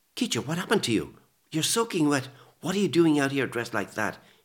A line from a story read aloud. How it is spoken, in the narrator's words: he blurted